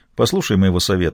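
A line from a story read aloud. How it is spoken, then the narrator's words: Plain. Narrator (Russian): сказал он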